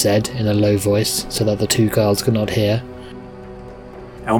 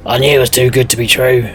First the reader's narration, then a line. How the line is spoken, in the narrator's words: growled Elmander